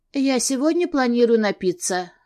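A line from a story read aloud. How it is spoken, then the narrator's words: Gloomy. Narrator (Russian): мрачно сказала я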